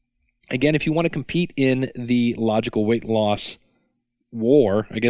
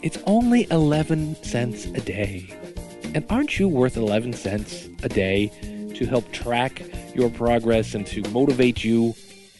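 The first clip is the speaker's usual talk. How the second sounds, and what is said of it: Imitates another person's voice. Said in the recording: “my best Sally Fields imitation.”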